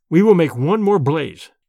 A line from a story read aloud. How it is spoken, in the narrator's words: I said firmly